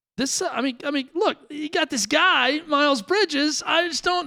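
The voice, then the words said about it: Exaggerated pained, high imitation voice. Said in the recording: “Do your Dokic imitation ... your best impersonation ... everything's pained ... you got to go pained deep down to a pain in the middle ... I go too high almost with Dan also ... you exaggerate it”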